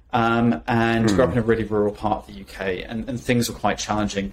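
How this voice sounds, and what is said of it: UK accent softened toward American. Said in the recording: “This is my permanent phone voice right now, which I've kind of attuned to the US with ... the accent I grew up with is not what you currently hear”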